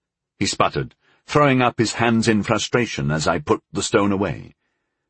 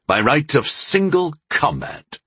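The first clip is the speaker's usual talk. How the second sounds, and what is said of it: Commanding, authoritative voice. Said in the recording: “in my best commanding voice.”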